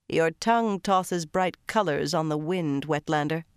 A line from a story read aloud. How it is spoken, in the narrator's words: Tion said in a flat voice